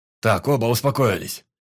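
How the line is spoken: Barking. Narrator (Russian): рявкнул Кольцов

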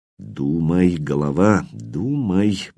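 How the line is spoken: Muttering. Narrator (Russian): бормотал он

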